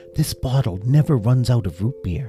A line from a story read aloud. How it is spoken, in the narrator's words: Doggy whispered to Dinky